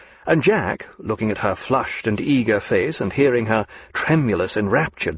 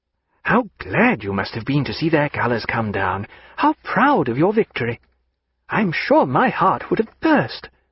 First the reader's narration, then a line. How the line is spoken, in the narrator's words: she exclaimed